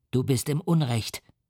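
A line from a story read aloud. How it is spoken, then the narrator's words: Plain. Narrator (German): sagte der Teufel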